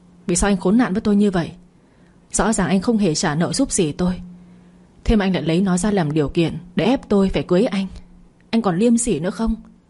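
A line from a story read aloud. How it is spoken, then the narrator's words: Shout. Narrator (Vietnamese): Tôi quát lên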